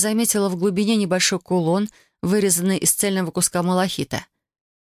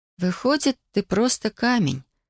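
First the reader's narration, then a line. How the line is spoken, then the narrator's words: Disappointed drawl. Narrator (Russian): разочарованно протянула я, когда ничего не произошло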